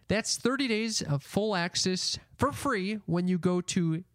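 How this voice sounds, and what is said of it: Speaks with a noticeable accent. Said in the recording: “Some people don't understand because my accent.”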